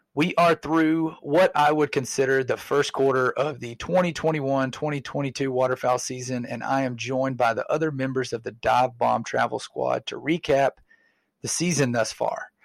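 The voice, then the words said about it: Very hoarse voice. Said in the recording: “Apologies for my very hoarse voice... I feel much better than I sound... Sorry, I sound terrible.”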